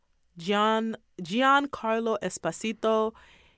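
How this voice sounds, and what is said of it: Name said in put-on Spanish accent. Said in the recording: “I'm saying it like it's like a Spanish accent”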